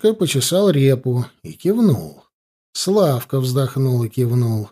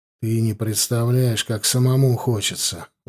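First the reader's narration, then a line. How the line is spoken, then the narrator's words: Sigh. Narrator (Russian): вздохнул я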